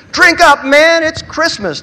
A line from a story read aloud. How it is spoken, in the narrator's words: Jack shouted